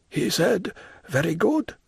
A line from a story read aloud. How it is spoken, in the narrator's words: muttered the Major